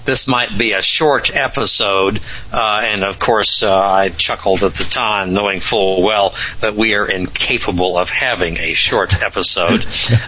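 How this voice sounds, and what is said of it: Slightly ragged, rough voice. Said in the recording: “my voice is a little ragged”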